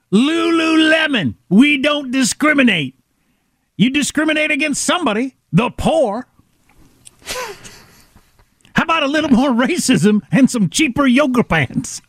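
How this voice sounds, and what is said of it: Imitates another person's voice. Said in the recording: “Chris Rock, if you need him, everybody. Through the lens of the loving impersonation”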